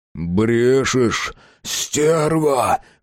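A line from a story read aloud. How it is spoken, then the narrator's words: Hoarse exhale. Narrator (Russian): хрипло выдохнул Матвей Палыч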